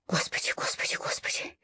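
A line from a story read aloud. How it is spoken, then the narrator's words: Whispering. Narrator (Russian): Я шептала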